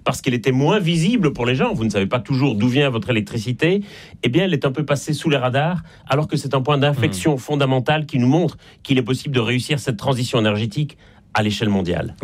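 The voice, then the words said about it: Slight Belgian French accent. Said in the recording (French): “ça s'entend un peu d'ailleurs à mon accent. Je suis en Belgique et je ne suis pas né en France”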